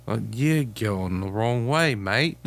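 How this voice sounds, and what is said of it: Put-on Australian accent. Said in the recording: “Ooh, sorry, I went Australian.”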